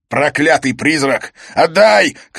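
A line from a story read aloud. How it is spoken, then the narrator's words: Shout choking on sobs. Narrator (Russian): крикнул он, задыхаясь от плача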